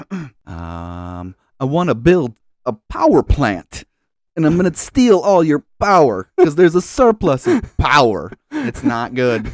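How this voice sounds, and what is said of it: Imitates another person's voice. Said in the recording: “your best Christopher Walken impression ... It's gonna be bad.”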